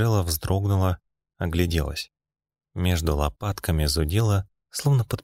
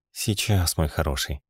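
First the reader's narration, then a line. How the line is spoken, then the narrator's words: Breathy exhale. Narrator (Russian): выдохнула Джелла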